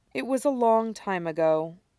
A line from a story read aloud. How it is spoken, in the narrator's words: Somewhat wearily, Deaton says